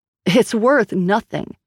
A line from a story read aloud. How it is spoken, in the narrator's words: snapped Grace